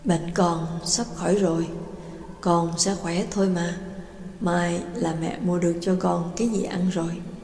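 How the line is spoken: Mother murmuring softly. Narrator (Vietnamese): mẹ lẩm bẩm

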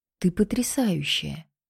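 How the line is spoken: Whisper. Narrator (Russian): шепнул Твен

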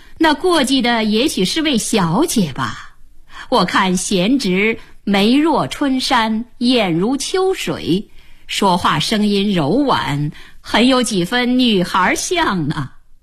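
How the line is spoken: Laughing. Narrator (Chinese): 周访笑道

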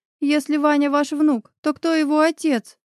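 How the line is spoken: Stammering, holding back sobs. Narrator (Russian): Заикаясь от сдерживаемых рыданий, спросила я

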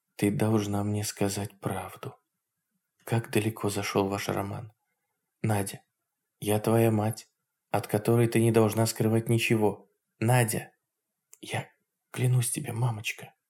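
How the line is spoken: Whispered. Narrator (Russian): таким же шепотом сказала Надя

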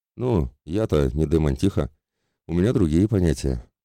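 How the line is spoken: Sorrowful sigh. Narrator (Russian): горестно вздохнул я

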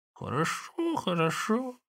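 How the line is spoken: Old woman's chuckling mutter. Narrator (Russian): бормотала старуха, посмеиваясь

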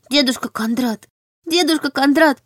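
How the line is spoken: Whimpering little girl. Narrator (Russian): захныкала девочка

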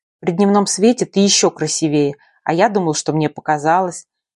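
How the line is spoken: Mutter. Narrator (Russian): пробормотал Ренат

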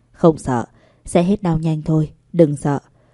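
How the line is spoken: Soft gentle voice. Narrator (Vietnamese): Giang Nam nhẹ giọng nói

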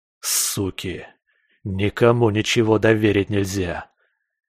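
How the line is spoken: Hiss through teeth. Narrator (Russian): Прошипел сквозь зубы скальпель

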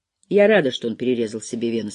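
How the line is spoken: Calm. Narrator (Russian): спокойно сказала

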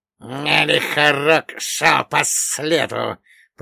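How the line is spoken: Hissed. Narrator (Russian): прошипел злый день

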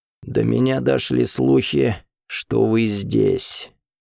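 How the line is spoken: Hoarse wheeze. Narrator (Russian): прохрипел он

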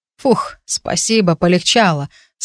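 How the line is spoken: Relieved exhale. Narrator (Russian): снова выдохнул Джесс

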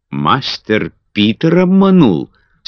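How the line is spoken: Surprised exclamation. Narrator (Russian): с удивлением воскликнула Бетти

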